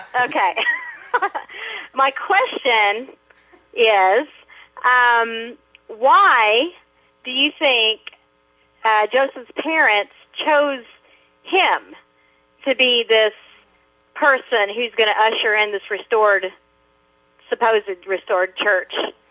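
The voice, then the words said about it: Oklahoma accent. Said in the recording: “We got an Oklahoma Sooner accent going now ... I sound like a hick.”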